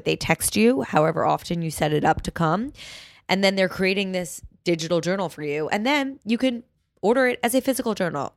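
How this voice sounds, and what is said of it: Slightly sick-sounding voice. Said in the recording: “As you can hear in my voice, I am like on the tail end of a sickness”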